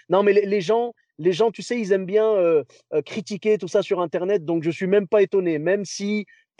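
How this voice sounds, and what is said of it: French (France) accent. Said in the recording (French): “tu as un accent français”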